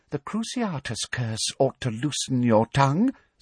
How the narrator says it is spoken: said Umbridge quietly

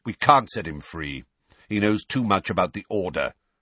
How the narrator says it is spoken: said Sirius curtly

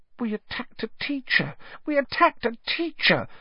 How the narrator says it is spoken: Hermione whimpered, staring at the lifeless Snape with frightened eyes

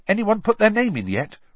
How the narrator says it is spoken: Ron asked, eagerly

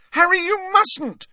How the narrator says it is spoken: shrieked Hermione

